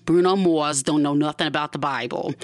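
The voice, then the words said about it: Playfully switched-on accent. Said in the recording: “I switched on my accent a little bit”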